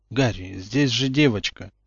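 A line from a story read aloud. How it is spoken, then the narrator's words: Gentle reproach. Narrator (Russian): мягко укорил его Люпин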